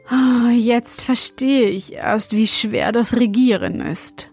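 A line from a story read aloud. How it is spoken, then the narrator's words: Remark with deep sigh. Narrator (German): meinte er und seufzte tief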